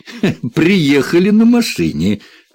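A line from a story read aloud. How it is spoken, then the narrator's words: Laughing. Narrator (Russian): рассмеялся Уоррен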